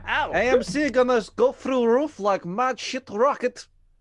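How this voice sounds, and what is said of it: Attempted Italian accent, sounds Russian. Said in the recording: “I can't do an Italian accent ... Is he Russian?”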